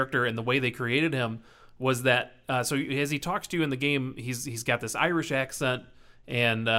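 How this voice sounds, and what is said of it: Usual voice. Nothing is said of it.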